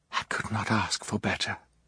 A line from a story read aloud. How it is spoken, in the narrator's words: Kit said quietly